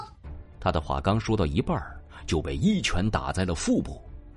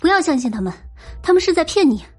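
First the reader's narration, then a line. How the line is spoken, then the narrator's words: Shouting. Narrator (Chinese): 安然大叫道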